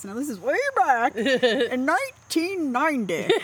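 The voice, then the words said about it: Put-on old man voice. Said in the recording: “old man voice”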